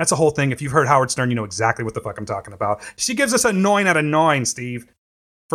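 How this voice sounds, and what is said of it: Usual voice. Nothing is said of it.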